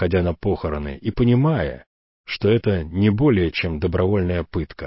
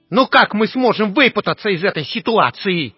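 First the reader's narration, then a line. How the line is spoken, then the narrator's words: Shrill, thin, angry and frightened. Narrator (Russian): спросил Уэсли Моуч голосом визгливым и тонким от злости и страха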